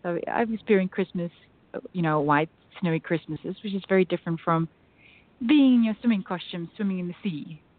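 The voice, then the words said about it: South African accent, sounds Australian. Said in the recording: “your accent, I know you said South African, but it sounds also very close to Australian, too.”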